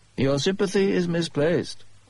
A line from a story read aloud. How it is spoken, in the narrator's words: Holmes said coolly